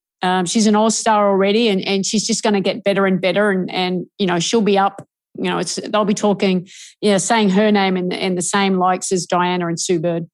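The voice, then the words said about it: Australian accent. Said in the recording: “I do detect an accent. I think you are Australian.”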